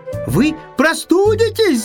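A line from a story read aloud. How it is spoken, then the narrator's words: Shouted. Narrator (Russian): закричал ежик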